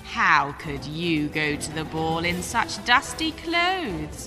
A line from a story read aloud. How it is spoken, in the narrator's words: sneered